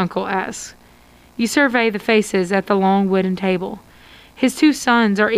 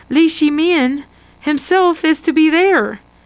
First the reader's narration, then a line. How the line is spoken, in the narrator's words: Shining Face exclaims, excited at the protests of the ritual